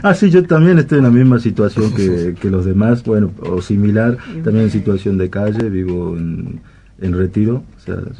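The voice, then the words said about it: Northern Argentine provincial accent. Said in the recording (Spanish): “se notaba en el acento ... ¿De alguna provincia del norte?”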